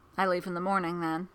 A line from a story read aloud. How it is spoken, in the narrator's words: Costas says